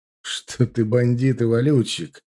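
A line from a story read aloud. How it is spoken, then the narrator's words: Snort, ordinary tone. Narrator (Russian): хмыкнул Марат уже совершенно обычным своим тоном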